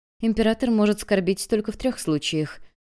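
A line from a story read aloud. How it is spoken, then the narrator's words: Sad wife answering. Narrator (Russian): печально ответила его супруга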